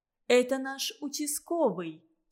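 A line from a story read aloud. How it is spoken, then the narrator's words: Plain. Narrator (Russian): сказала хозяйка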